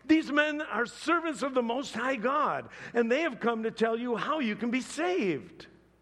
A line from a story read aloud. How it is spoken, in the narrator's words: She shouting